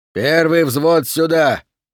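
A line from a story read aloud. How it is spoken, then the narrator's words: Barked loudly. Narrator (Russian): гаркнул Мастерс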